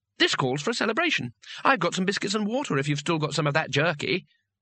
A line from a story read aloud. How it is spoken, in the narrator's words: Twoflower said brightly